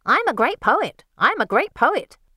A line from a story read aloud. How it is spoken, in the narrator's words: Cassandra screeches out